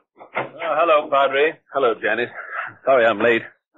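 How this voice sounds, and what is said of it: Out of breath, panting speech. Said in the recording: “You seem a good deal out of breath. ... I am out of breath”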